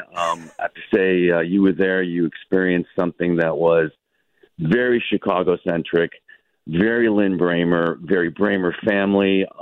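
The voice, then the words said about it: Slightly raspy, hoarse voice. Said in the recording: “My voice is a little raspy. I sound like Muttley, the cartoon character ... A lot of screaming last night, a lot of yelling”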